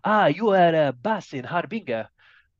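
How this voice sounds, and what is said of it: Put-on Spanish accent. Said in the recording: “that was Spanish accent, by the way ... Not too sure if that was too accurate”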